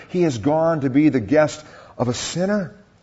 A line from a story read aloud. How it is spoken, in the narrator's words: in the midst of discontentment, all the people saw this and began to mutter